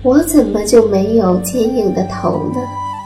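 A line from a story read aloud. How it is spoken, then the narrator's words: Sighing small snail. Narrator (Chinese): 小蜗牛叹了口气，说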